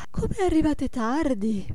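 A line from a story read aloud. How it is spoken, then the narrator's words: Yawning exclamation. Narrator (Italian): esclamò sbadigliando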